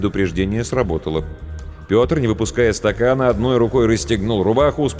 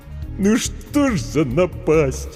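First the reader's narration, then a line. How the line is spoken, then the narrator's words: Sobbing. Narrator (Russian): Букер всхлипнул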